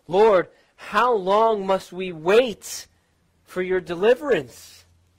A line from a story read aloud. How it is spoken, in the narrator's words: who were oppressed and overly taxed, they must have cried out